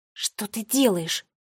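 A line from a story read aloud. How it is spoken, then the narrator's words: Hissed. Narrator (Russian): прошипела Нола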